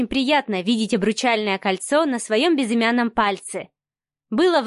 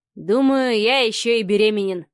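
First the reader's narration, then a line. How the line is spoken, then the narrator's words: Chuckling. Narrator (Russian): хохотнул Савелий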